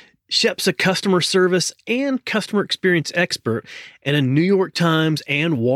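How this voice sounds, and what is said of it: Usual voice. Nothing is said of it.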